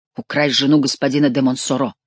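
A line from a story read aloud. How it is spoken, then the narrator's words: Muttered. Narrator (Russian): пробормотал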